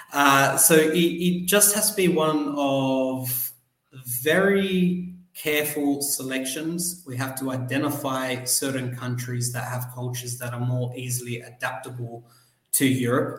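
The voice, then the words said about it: Australian English accent. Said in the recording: “as you can tell from my accent, was born in Australia”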